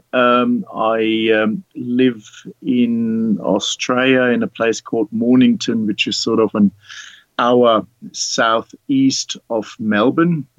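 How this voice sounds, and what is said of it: German accent. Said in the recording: “as you may recognize from my accent, I'm not born in Australia, originally from Germany”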